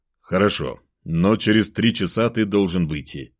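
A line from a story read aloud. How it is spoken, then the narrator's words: Stern. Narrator (Russian): строго сказал он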